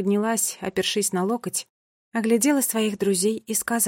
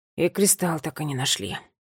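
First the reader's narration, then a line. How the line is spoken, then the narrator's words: Quiet remark. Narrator (Russian): тихо заметил Милан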